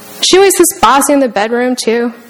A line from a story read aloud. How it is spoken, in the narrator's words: The girl laughed